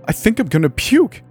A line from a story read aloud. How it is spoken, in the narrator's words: She exclaimed as she gagged, dry heaves rocking her diaphragm